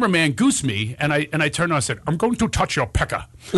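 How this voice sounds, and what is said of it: Usual voice. Nothing is said of it.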